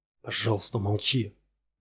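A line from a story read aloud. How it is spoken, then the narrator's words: Whisper in ear. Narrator (Russian): зашептал он ей на ухо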